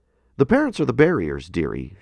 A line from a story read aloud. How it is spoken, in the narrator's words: she said